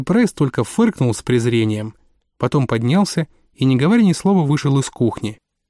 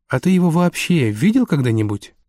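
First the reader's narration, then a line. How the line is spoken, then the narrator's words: Soft question. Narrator (Russian): спросил Андрей мягко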